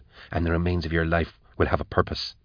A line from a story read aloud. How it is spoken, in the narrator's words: she whispered